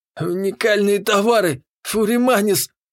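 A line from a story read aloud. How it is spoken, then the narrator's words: Breathless moan. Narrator (Russian): с одышкой простонал торгаш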